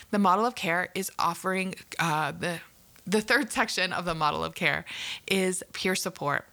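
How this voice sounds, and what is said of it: Canadian accent. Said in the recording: “I'm from Canada and probably knew that from my accent.”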